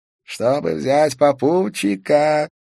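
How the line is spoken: Hoarse coughing. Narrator (Russian): Валентин хрипло закашлялся

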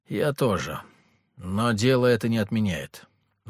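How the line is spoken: Gloomy. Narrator (Russian): мрачно ответил я

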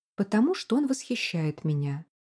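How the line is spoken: Plain. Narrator (Russian): сказала Жизель

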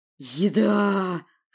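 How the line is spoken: Greedy drawl. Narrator (Russian): жадно протянул Хнезида

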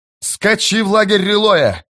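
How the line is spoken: Yelling. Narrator (Russian): завопил другой

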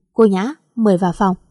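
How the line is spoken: Cold. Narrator (Vietnamese): Kiệt lạnh lùng nói

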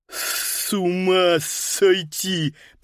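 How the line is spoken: Lisping. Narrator (Russian): прошепелявил Паскаль

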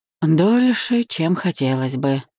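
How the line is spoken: Sighing reply. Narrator (Russian): вздохнув, ответил

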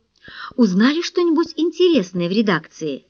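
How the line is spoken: Plain. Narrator (Russian): спросила Фэй

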